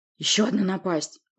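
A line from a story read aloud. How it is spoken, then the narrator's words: Growl. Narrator (Russian): рыкнул Ури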